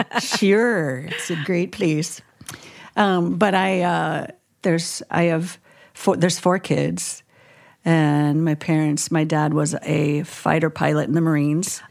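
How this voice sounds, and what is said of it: Minnesota accent. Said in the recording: “I grew up in Minnesota ... you can't hide it with the accent”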